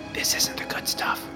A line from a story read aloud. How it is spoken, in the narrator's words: One kid whispered to his buddy